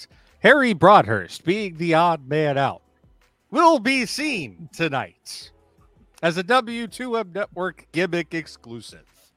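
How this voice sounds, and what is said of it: Announcer voice. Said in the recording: “in my announcer voice.”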